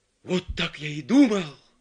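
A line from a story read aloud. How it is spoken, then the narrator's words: Exclamation. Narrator (Russian): воскликнул Филипп Филиппович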